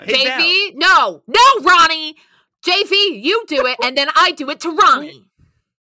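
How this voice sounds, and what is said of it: Yelling. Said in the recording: “I'm sorry for yelling”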